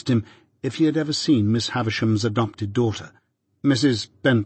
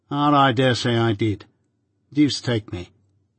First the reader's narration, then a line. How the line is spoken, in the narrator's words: he added sullenly